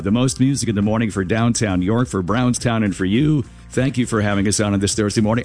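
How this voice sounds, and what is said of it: Rough, unwell-sounding voice. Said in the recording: “this is what I sound like ... I have never heard you sound this bad ... this is the best I can do this morning”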